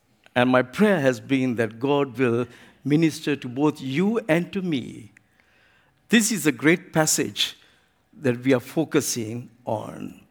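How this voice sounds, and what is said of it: Sri Lankan accented English. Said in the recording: “definitely be speaking English with an Asian accent ... my own Sri Lankan Asian accent”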